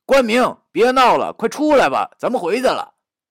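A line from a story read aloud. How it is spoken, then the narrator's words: Anxious group calling. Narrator (Chinese): 刘明明等一干人等，他们好像也着急了，正喊着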